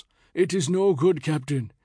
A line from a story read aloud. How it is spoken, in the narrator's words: he confided mournfully